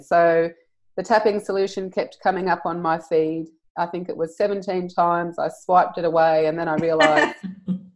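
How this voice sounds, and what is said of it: Australian accent. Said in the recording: “All the way from Australia. She has the coolest accent”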